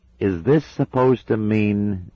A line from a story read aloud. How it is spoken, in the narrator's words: he said slowly